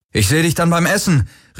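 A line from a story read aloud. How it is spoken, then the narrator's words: Calling out. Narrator (German): rief er Kirai zu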